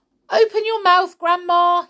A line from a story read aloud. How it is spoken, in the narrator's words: he cried